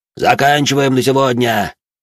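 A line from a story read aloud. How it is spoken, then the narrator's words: Shout. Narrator (Russian): крикнул он им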